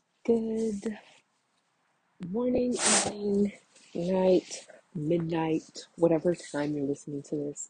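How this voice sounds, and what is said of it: Groggy early-morning voice. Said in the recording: “my voice sounds a little bit groggy”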